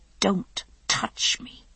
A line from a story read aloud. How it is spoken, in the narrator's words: she said through her teeth